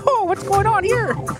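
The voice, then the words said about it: Mickey Mouse voice, slight Rez accent. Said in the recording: “it was like Mickey with like a little bit of a Rez accent”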